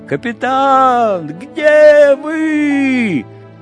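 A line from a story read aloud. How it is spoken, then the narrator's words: Prolonged shouting. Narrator (Russian): Давно уже Летика кричал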